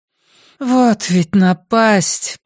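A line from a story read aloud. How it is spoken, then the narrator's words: Groaning. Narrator (Russian): простонала Кёрк Блум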